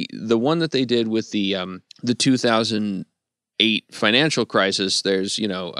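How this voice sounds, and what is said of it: Usual voice. Nothing is said of it.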